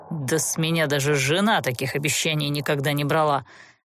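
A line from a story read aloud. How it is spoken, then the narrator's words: Feigned offense. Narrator (Russian): Лицемерно оскорбился Олтерн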